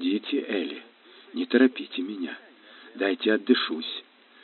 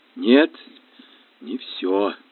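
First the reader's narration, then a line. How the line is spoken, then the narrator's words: Convulsive gasping exhale. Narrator (Russian): судорожно выдохнула моя подруга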